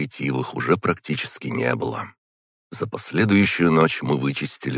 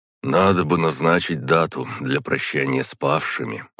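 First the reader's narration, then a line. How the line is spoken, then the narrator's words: Weary. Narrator (Russian): устало проговорил Иосиф Дмитриевич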